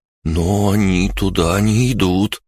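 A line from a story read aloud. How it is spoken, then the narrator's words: Wary drawl. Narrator (Russian): настороженно протянул Джорди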